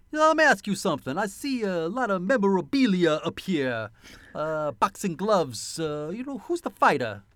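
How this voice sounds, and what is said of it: Put-on accent. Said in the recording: “the accent”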